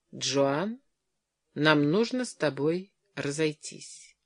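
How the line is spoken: Flat colorless voice. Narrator (Russian): Он сказал бесцветным голосом

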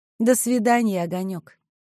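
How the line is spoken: Gentle. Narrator (Russian): ласково сказала военврач

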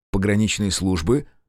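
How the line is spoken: Snort. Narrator (Russian): хмыкнул Мезенцев

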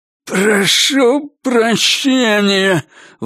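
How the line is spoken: Forced out with hatred. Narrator (Russian): выдавил он с ненавистью

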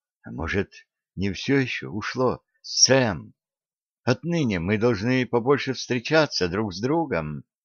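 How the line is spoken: Whispering. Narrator (Russian): Шепчущим голосом она сказала

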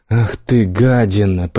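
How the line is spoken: Hoarse wheeze. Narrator (Russian): прохрипела Лайла

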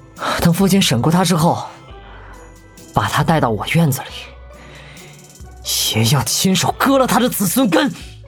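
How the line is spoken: Panting. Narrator (Chinese): 谢之方喘着粗气……补了一句

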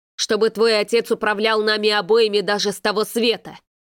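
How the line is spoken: Sudden angry retort. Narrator (Russian): Неожиданно зло бросил папа

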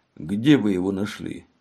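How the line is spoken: Plain question. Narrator (Russian): спросил Мегре

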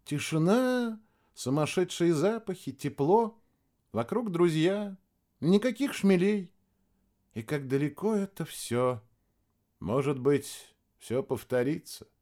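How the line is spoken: Thoughtful. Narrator (Russian): также задумчиво сказал Максим

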